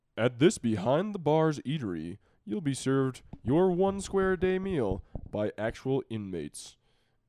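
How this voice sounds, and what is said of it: Announcer-style radio voice. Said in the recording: “read it in, like, my radio voice.”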